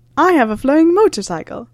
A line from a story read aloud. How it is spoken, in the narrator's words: exclaimed Sirius, eyes as bright as a little boy's